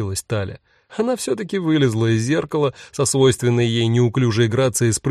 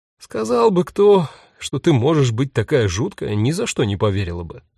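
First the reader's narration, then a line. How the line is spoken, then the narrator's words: Sigh. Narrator (Russian): вздохнула Юта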